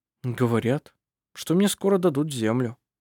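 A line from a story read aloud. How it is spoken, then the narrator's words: Confused, bewildered. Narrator (Russian): растерянно произнес он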